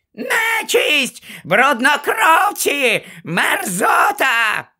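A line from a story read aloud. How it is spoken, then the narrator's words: Shrieking. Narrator (Ukrainian): верещала вона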